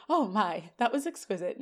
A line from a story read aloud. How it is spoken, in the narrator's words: The director sighs